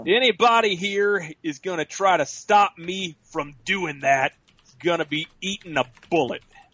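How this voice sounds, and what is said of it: Imitates another person's voice. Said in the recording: “Doing my John Wayne impersonation ... It's very good. Very good”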